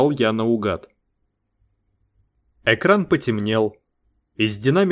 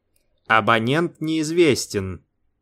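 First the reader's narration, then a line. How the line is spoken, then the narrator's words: Calm machine voice. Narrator (Russian): спокойно ответил автомат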